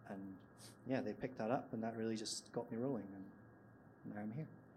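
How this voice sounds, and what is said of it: Scottish accent. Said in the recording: “you might be able to tell from my accent, I'm from Scotland”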